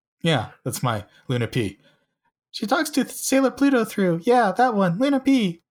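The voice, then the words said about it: Imitates another person's voice. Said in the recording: “my Alexei impression”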